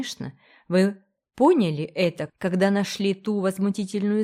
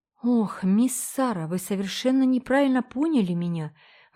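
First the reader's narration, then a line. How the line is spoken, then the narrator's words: Exclaiming. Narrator (Russian): воскликнула она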